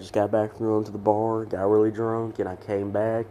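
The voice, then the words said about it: Rough, worn-out scratchy voice. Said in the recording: “my voice sounds like a dried rat skunk”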